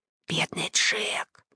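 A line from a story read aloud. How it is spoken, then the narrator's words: Whisper. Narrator (Russian): шептал он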